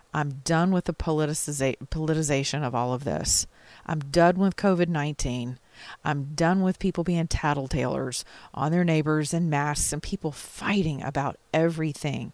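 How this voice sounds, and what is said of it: Tired, weary voice. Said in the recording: “As you can hear in my voice, I'm just as tired as you are.”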